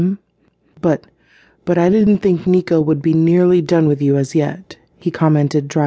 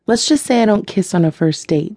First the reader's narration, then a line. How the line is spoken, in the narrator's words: Kira replied